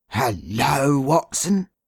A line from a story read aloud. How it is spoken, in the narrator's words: said he, and his voice was still deep and hearty